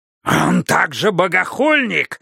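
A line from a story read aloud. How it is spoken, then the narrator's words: Hoarse cry. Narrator (Russian): хрипло вскрикнул Иерусалим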